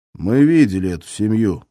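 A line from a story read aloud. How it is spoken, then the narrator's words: Plain. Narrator (Russian): сказал повар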